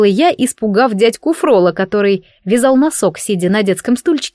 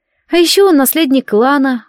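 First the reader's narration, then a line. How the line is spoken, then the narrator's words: Sighing. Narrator (Russian): вздохнула Уния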